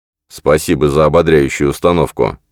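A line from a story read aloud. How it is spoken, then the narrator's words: Grumbled. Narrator (Russian): пробурчал он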